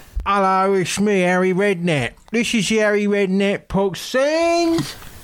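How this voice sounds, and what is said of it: Imitates another person's voice. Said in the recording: “to do a little impression of Harry Redknapp, because I've been practicing this all week”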